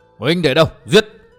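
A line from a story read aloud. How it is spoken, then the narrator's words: Loud shout. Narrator (Vietnamese): Miêu Như Đồng quát lớn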